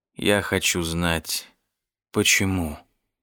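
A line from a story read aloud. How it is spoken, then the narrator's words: Tired father. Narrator (Russian): устало сказал отец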